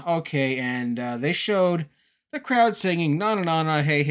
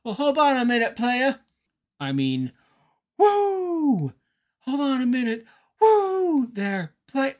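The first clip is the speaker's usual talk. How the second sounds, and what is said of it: Ric Flair impression. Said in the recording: “I can't impersonate Ric Flair.”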